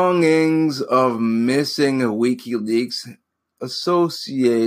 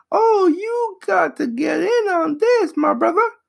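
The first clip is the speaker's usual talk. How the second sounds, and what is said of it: Mimicking a friend's voice. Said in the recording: “Well, he don't sound like that. I'm just doing a mimicky voice.”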